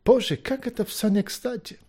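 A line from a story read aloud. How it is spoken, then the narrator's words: Sigh. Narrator (Russian): вздохнул Маккехт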